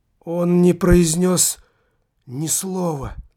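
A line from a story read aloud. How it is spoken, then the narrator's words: Slave girl forcing words out. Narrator (Russian): с большим трудом выдавила из себя рабыня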